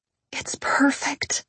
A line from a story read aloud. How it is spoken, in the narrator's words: I breathed